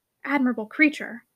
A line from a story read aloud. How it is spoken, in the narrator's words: muttered Shirley under her breath